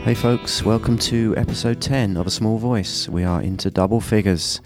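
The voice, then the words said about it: Congested voice from a cold. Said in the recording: “sorry about my voice. I do have a cold ... if my voice is annoying”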